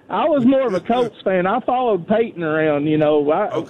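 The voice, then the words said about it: Noticeable accent. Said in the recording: “I love your accent ... what an accent that guy's got”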